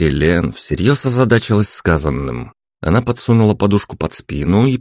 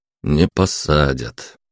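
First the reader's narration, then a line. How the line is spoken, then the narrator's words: Gloomy reply. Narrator (Russian): мрачно ответил я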